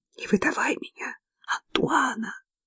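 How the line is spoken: Whisper. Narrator (Russian): зашептала я

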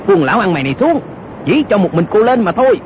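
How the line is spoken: Shout. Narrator (Vietnamese): Âu Dương Cát y quát lên

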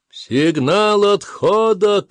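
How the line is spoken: Shouted. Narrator (Russian): крикнул Кишар

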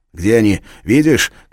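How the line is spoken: Shout. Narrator (Russian): крикнул он Кларе

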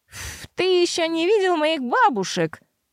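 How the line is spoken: Giggling. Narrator (Russian): Нэти хихикнула

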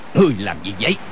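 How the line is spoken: Shouting. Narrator (Vietnamese): quát lên

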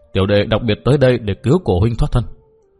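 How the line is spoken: Soft sigh. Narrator (Vietnamese): Dương Cử Nguyên buông tiếng khẽ thở dài nói

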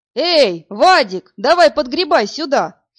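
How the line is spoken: Shouted. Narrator (Russian): закричал Артем Таран

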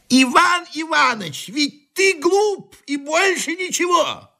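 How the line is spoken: Loud. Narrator (Russian): громко сказал Григорий Григорьевич

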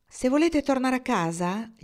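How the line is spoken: Fluty voice. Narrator (Italian): disse con voce flautata

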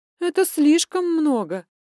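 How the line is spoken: Loud laughter. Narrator (Russian): Алинка снова расхохоталась

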